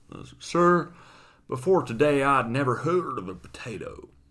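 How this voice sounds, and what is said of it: Put-on slow Southern drawl. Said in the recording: “more of a sort of southern drawl. As if you kind of got some molasses in your mouth.”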